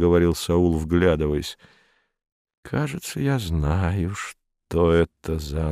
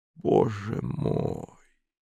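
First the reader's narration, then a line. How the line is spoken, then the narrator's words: Unintelligible muttering. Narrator (Russian): непонятно бормотал над ухом Саул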